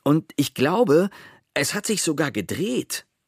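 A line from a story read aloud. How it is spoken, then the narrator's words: Calling down the stairs. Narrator (German): rief Pepe über die Wendeltreppe nach unten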